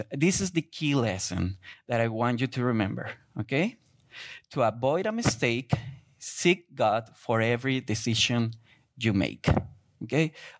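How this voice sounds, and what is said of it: Thick Spanish accent. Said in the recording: “my thick accent ... I'm not a good rapper in Spanish”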